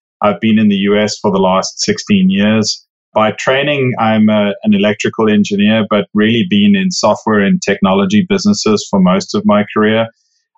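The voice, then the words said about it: South African accent. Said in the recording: “as you can probably tell from the accent, didn't grow up in the US. I grew up in South Africa.”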